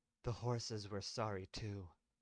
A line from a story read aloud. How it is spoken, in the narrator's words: Lynn muttered back at him